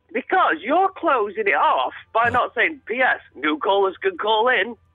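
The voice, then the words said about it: Exaggerated cheesy radio DJ voice. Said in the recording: “in a crappy DJ voice”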